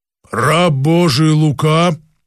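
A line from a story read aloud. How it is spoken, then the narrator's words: Angelic being, deep bass. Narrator (Russian): произнесла ангельская сущность почему-то басом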